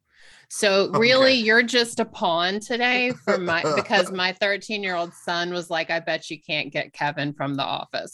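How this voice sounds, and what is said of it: Southern US accent, Georgia. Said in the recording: “I was listening to your accent trying to place it. Are you from Georgia?”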